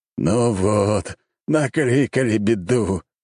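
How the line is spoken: Wailing. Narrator (Russian): взвыл император

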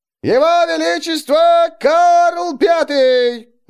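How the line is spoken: Ringing herald's shout. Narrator (Russian): звонко прокричал глашатый

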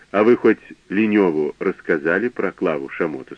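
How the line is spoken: Plain. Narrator (Russian): спросил я

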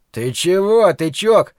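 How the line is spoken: Shout. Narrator (Russian): снова крикнул Ллойд

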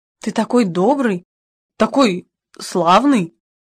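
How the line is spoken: Confused mumble. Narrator (Russian): растерянно бормотал я

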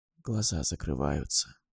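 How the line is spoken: Whisper. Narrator (Russian): прошептала она

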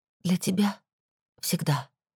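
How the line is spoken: Quiet reply. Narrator (Russian): ответила также негромко

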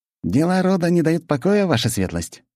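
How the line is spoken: Cheerful question. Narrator (Russian): весело спросил Антипов-младший

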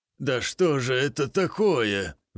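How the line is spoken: Hoarse voice. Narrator (Russian): сиплый голос

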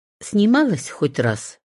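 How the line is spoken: Plain. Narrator (Russian): спросила я

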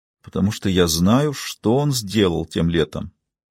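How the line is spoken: Quiet, dejected speech. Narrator (Russian): Лили понуро тихо сказала

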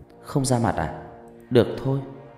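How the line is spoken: Soft, smiling. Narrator (Vietnamese): Ngọc Lam mỉm cười nói nhỏ

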